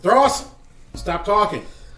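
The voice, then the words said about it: Loud commanding yell. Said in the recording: “yell in my commanding voice, my boss voice”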